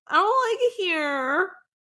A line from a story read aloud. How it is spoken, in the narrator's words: Lex whimpered